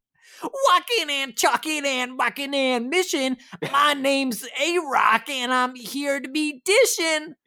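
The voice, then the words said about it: Rap impression of a hip-hop group. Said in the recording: “That's my impression of the Beastie Boys.”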